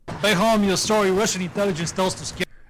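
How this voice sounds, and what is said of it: Heavy, hard-to-understand accent. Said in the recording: “I cannot understand his accent.”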